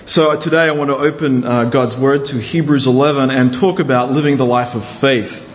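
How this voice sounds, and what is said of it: Australian accent softened by American. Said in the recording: “I have lived in America a good while, so I don't have a pure Australian accent.”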